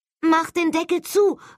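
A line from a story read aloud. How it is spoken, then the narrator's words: Calling out. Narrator (German): rief Holly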